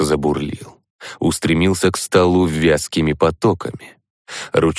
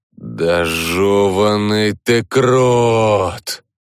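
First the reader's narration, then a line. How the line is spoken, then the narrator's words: Exhaling. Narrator (Russian): выдохнул я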